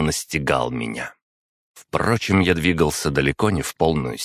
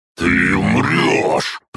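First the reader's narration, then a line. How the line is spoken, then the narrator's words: Frightened growl. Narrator (Russian): прорычал он, но не с угрозой, как можно было бы ожидать, а с некоторым испугом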